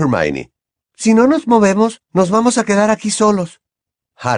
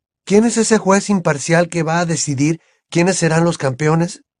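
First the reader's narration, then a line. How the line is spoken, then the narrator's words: Plain question. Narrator (Spanish): preguntó Harry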